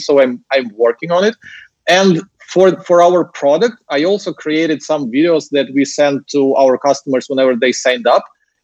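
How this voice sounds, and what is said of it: Ukrainian-accented English. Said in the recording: “my accent was much, much heavier than it is today ... a random young Ukrainian dude speaking English and it's not even like perfect English”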